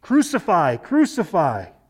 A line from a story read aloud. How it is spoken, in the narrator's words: the chief priests and the officers cried out, saying